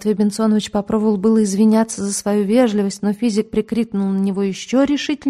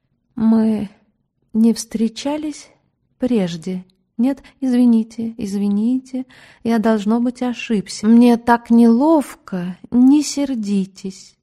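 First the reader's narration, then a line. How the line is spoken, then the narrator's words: Timid, unhinged question. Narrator (Russian): свихнувшийся следователь робко спросил госпожу Лисицыну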